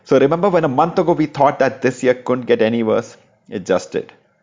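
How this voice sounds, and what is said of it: Indian English accent. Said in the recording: “your favorite NBA podcast in an Indian accent.”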